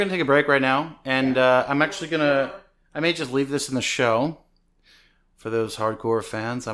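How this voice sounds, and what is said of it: Usual voice. Nothing is said of it.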